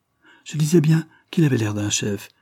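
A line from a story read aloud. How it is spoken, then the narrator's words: Joyful exclamation. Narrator (French): s'écria Bref, les yeux brillants de joie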